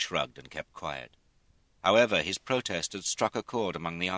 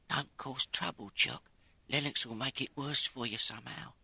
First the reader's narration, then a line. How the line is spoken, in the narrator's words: said in a low voice